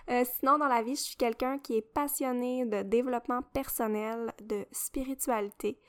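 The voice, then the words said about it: Québécois French accent. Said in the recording (French): “j'ai vraiment l'accent québécois”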